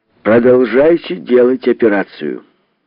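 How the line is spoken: Loud. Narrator (Russian): громко ответил Кокосов

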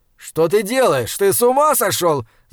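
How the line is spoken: Shouted. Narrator (Russian): закричал

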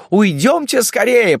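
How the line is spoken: Women shouting. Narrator (Russian): Женщины кричали

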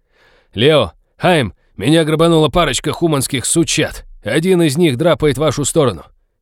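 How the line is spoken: Yelling at the top of lungs. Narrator (Russian): Фрианин во всю глотку заорал

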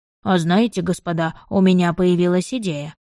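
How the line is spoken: Sudden exclamation. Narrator (Russian): внезапно воскликнул он

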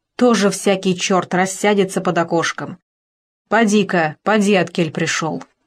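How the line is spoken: Angry woman. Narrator (Russian): она сердито сказала ему

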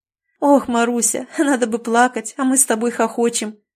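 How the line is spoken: Laughing woman speaking. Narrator (Russian): сквозь смех проговорила учительница

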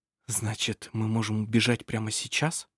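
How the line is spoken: Whispered reply. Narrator (Russian): прошептал он в ответ

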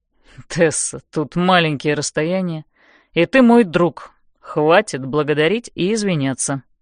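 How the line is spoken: Stern. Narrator (Russian): сурово произносит Лэндон

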